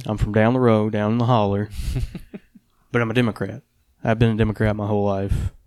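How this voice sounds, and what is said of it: Local regional accent. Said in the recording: “I have an accent. Like, I grew up here.”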